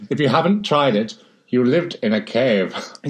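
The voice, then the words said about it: Put-on American accent. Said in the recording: “Is this your American accent?”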